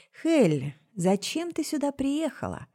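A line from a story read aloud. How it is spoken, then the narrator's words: Sudden soft question. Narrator (Russian): Вдруг мягко спросил король нежити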